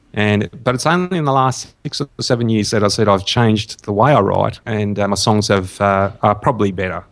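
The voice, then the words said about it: Australian accent. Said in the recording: “I'm picking up on your Australian accent”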